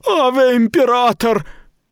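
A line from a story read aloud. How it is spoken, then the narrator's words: Astonished wail. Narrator (Russian): Жрица, пораженная, с открытым ртом, завопила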